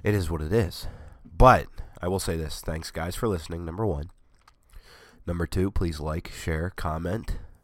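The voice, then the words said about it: Hoarse, worn-out voice. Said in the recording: “my voice is shot. I've had several coughing fits.”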